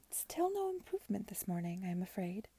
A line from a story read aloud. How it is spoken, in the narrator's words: murmured Mrs